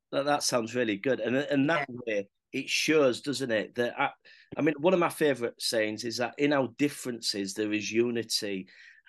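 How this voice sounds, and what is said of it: Hull accent, northern English. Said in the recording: “as you can tell from my accent, I'm not from London. I'm originally from Hull.”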